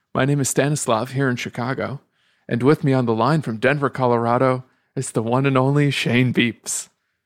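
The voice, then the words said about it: NPR radio voice like Terry Gross. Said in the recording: “why are you doing like you're Terry Gross? ... talking in an NPR voice”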